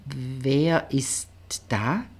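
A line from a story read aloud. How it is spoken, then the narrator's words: Hesitant question. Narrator (German): fragte zögernd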